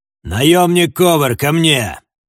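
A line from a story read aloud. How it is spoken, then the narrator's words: Commanding shout. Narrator (Russian): приказным тоном крикнул господин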